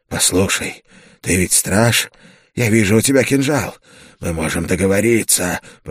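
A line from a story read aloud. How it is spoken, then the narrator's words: Hoarse rasp. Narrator (Russian): прохрипел он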